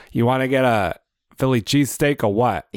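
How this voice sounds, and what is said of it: Mixed Philadelphia and Boston accent. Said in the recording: “You're kind of mixing in a Philadelphia accent with a Boston accent”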